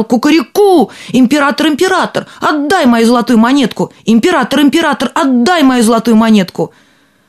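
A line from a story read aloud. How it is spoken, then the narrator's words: Shouting again. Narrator (Russian): опять закричал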